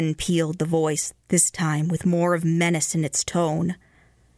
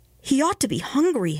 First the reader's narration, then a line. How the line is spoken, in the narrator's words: exclaimed the mother